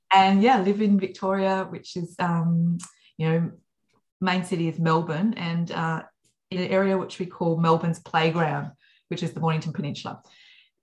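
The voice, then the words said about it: Australian accent. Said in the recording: “obviously the accent is Australian”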